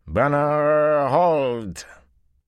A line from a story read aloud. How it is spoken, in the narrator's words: carried the familiar slurred drawl of the Seanchan